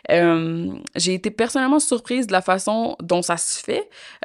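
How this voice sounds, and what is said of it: Québécois French accent. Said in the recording (French): “mon accent québécois”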